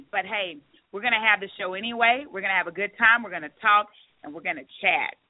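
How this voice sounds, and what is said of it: Raspy, strained voice. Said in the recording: “my voice sounds a little raspy, it's because it is raspy. I was just diagnosed with bronchitis... my voice is kind of giving out on me”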